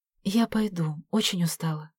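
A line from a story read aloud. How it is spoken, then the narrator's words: Whisper in the ear. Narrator (Russian): Вера шепнула Саше на ухо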